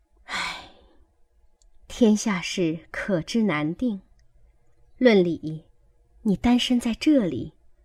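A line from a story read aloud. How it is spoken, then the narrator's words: Sighing. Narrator (Chinese): 鸳鸯叹了一声，说道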